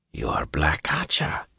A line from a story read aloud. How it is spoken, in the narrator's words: he whispered